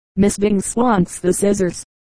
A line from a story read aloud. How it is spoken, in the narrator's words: Thomas answered brokenly